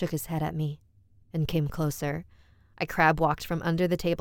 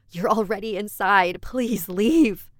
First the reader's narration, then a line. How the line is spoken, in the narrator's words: shouted at him